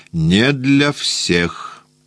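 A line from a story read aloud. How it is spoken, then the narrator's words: Indifferent, sleepy. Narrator (Russian): сказал он равнодушно, сонным голосом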